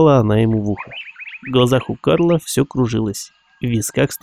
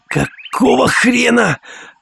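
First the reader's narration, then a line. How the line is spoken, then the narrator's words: Howling. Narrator (Russian): взвыл Карл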